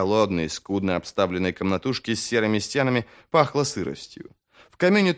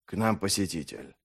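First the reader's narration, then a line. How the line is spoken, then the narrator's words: Dull, muffled remark. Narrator (Russian): глухо проронил практик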